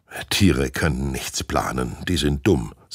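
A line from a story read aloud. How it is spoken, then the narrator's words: Plain caretaker. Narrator (German): sagt der Pfleger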